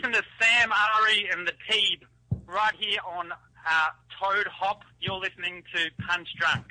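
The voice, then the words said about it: Thick put-on Australian accent. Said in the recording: “really thick up your accent ... Just do thick Australian accent ... He really thick”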